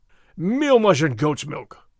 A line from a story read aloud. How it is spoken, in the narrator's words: Gonzalez cried